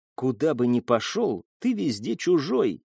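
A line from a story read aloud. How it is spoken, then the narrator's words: Whispered. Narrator (Russian): прошептала она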